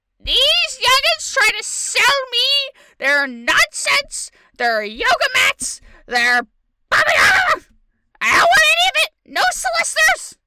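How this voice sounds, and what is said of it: Old lady character voice. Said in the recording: “my old lady voice ... Your little babushka voice”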